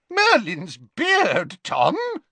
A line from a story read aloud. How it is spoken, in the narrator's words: yelped Slughorn